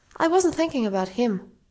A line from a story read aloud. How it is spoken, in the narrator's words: Lydia told him flatly